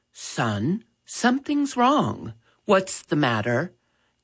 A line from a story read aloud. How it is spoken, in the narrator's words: Dad gently asked